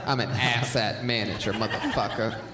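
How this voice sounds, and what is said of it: Bad pimp voice impression. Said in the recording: “bad pimp impression”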